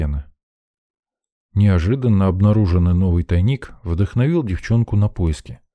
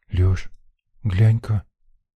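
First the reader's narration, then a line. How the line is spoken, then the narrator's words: Whispered call. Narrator (Russian): шепотом позвала Лена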